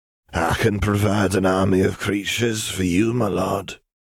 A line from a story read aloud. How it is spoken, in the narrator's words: he said in a wheezy voice